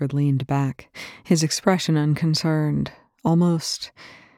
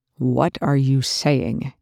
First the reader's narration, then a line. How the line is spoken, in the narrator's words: Young growled